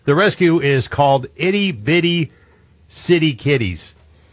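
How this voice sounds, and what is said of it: Speaks very slowly and deliberately. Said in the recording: “I'm going to say this very slowly.”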